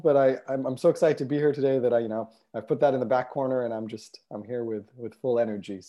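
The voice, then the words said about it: Voice with a slight cold. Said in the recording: “I've got a little bit of a cold”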